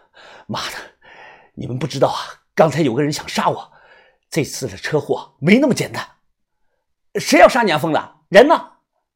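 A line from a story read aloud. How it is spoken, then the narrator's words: Panting. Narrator (Chinese): 喘着气说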